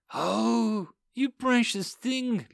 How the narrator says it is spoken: Lisa cooed

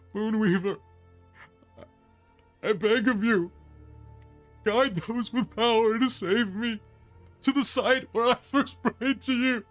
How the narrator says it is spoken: sobbing, chokes out

